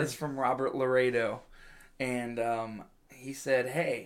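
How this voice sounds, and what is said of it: Usual voice. Nothing is said of it.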